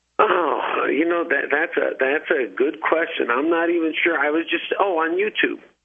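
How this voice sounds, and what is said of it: New Jersey accent. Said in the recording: “if you can't tell from the accent, I am from New Jersey”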